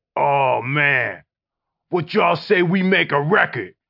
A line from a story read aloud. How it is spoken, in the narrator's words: Me and Jeff snapped